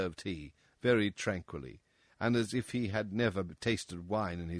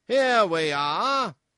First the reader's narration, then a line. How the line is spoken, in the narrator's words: cried the king, laughing at his acute discovery of the coincidence